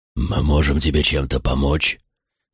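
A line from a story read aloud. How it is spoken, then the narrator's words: Growled. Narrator (Russian): прорычал Тагрон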